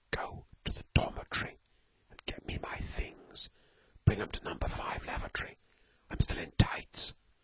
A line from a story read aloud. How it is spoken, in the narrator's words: hissed Storky